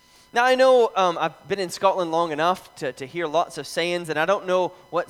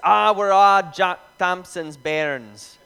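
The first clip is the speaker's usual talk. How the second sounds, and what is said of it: Poor put-on Scottish Fife accent. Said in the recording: “a saying that people say in Fife ... Absolutely butchered the accent, by the way.”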